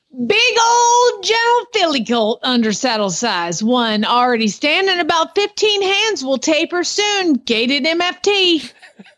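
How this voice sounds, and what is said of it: Put-on Southern American accent. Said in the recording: “I got to read this in the Southern accent. There's no way you can't.”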